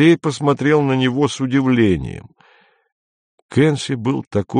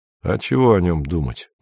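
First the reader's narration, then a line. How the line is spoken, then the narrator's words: Grumbling. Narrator (Russian): проворчал Андрей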